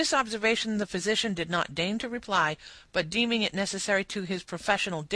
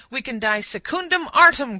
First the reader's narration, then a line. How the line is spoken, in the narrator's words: cried the trooper